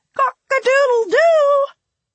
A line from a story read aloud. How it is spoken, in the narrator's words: he still cries